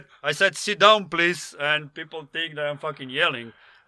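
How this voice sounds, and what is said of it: Loud, boisterous accented speech. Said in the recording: “It's the accent. ... boisterous and loud and over the top”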